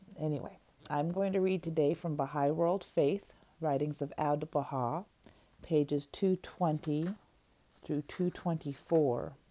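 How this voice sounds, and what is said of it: Rough, sick-sounding voice. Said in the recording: “pardon my voice. I've had a cold.”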